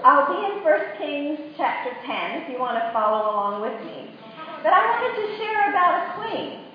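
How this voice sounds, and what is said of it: American Virginia accent. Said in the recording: “I have an Australian passport and a U.S. passport, which I'm sure you can tell by my accent. I'm from Virginia right now. I never lost my accent”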